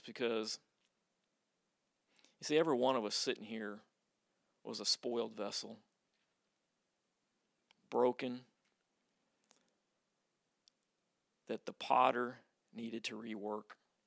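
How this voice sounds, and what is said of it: Emotional, choked-up voice. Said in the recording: “I get emotional every time I read this”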